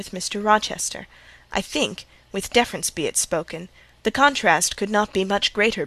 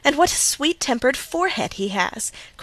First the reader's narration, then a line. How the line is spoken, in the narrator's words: cried Louisa